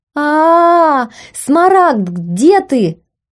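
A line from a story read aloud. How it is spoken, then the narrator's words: Loud wailing scream. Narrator (Russian): вопила в голос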